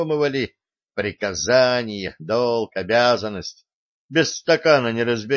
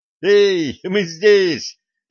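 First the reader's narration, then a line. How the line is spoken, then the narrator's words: Joyful shout. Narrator (Russian): радостно закричал Артем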